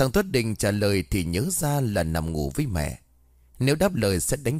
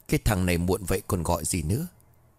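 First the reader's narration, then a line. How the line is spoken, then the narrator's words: Muttering. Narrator (Vietnamese): Nó liền lẩm bẩm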